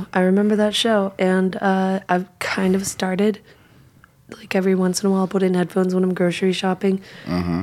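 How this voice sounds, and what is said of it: Hoarse, strained losing voice. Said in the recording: “obviously I'm losing my voice from screaming at people in a loud bar”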